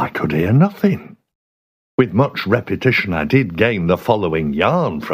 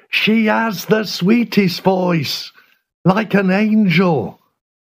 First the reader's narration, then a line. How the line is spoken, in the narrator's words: Into my ear, Phineas shouted